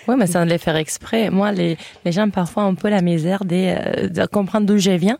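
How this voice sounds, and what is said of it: French with a Catalan lilt. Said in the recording (French): “mon français, c'est pas forcément comme les Français des Espagnols et l'Espagne. Moi, j'ai plutôt la musicalité du catalan”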